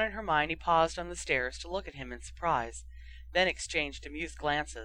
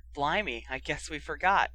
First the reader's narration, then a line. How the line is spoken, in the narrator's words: Ron chuckled